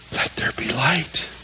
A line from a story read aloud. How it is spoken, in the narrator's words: God said or whispered